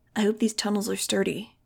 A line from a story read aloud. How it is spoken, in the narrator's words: Dylan whispered